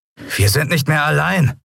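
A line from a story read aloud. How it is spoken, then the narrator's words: Sudden call. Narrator (German): rief Telbo plötzlich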